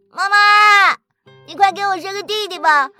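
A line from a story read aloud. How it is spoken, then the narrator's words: Eager, loud. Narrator (Chinese): 明圣杰就迫不及待的大声说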